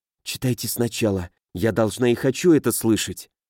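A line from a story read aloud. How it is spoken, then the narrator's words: Stubborn jealous whisper. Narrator (Russian): Добиваясь своей цели с упрямством женщины, страдающей от ревности, она шепнула Нилу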